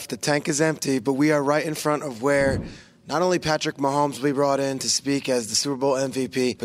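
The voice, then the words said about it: Hoarse, nearly lost voice. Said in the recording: “got a sexy voice on ... Got no voice left ... I have no voice and no energy left”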